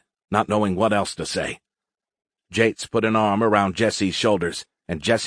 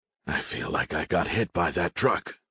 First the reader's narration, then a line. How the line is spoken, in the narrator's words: Jates groaned